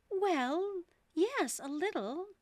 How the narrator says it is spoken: Alice replied gently

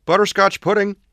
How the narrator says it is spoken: she exclaimed

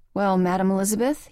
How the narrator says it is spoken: he asked, his voice hoarse and tired

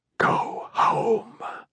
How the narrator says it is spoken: he whispered

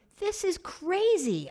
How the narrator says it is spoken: shouted

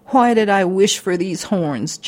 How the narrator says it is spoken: Jackalope cried

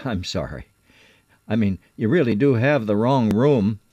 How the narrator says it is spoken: still laughing, I said

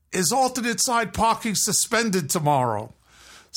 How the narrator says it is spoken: the person who I just passed yell

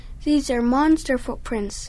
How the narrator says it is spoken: Shaggy cried

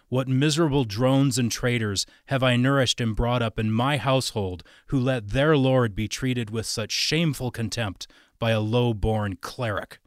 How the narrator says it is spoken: roared

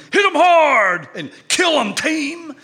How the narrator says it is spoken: screaming

